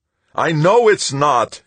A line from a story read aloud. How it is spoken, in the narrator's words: he wailed